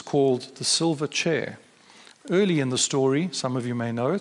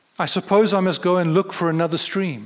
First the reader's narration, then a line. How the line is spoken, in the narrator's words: cried Jill